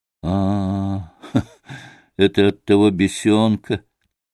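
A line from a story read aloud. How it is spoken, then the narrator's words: Malicious laugh. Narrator (Russian): Рассмеялся злобно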